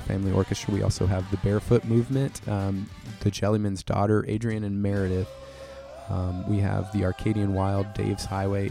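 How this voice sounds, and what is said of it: Worn-out, tired voice. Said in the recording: “my voice is a little worn out ... my voice is a little worn out right now”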